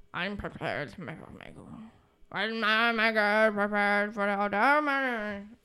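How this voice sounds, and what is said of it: Mumbled, poor impression of another person. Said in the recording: “He really just mumbles... I have no idea what he says. That's my awful Winston Churchill impression... It's a separate language”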